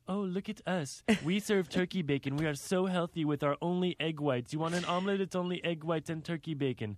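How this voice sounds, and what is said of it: Mocking snooty French-like accent. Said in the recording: “Is that the accent that they have ... It was quite French like.”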